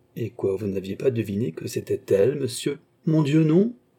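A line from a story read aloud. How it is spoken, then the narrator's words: Perfectly simple tone. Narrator (French): dit le cardinal d'un ton parfaitement simple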